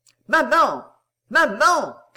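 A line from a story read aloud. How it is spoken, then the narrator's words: Shouting. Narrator (French): cria-t-il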